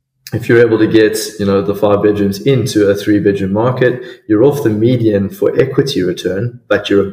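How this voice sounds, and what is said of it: South African accent. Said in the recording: “your glorious South African accent”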